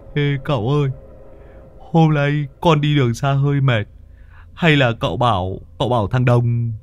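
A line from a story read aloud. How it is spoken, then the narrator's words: Old man whimpering. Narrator (Vietnamese): Lão mếu máo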